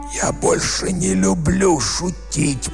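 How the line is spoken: Hoarse rasp. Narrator (Russian): прохрипел он

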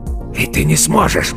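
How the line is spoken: Hoarse rasp. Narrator (Russian): прохрипел он

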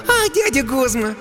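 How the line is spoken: Girl's cheerful laugh. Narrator (Russian): Девчонка весело рассмеялась

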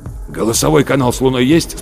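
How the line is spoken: Hoarse question. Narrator (Russian): спросил Рудольф Терентьевич хриплым голосом

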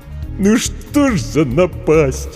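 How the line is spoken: Sobbing. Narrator (Russian): Букер всхлипнул

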